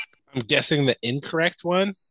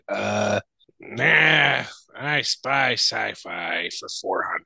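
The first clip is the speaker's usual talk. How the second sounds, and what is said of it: Cartoon character voice. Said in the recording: “in a Eustace voice?”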